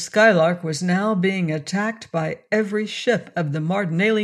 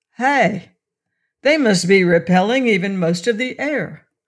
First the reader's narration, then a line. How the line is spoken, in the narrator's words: he shouted